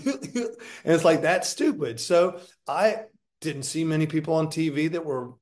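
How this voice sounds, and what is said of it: Usual voice. Nothing is said of it.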